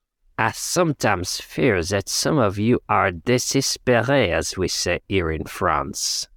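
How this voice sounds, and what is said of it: Exaggerated comic French accent. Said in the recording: “a sort of hello, hello style offensive French accent ... Is it Inspector Clouseau?”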